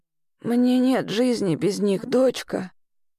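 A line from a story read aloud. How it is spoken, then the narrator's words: Quiet. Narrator (Russian): тихо произнесла Лаура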